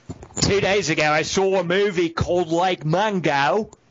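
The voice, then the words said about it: Put-on Australian accent. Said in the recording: “you've got to say it in your accent ... That's my Eric Bana.”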